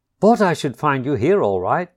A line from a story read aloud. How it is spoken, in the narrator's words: said the otter cheerfully